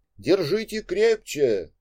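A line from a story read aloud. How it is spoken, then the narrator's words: Shouting over gusting wind. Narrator (Russian): закричал Петя, когда порыв ветра закачал деревья и потянул за собой воздушных змеев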